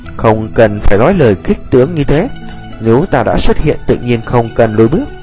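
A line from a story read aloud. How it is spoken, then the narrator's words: Laughing reply. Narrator (Vietnamese): Tiêu Viêm bật cười đáp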